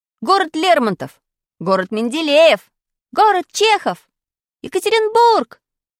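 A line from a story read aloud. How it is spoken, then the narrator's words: Kids shouting over each other. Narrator (Russian): кричали ребята наперебой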